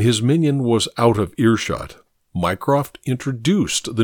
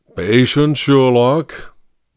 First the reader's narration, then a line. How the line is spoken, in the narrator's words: Mycroft intoned